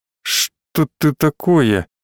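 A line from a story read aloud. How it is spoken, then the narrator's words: Quiet suspicious voice. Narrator (Russian): тихо, с подозрением в голосе, произнес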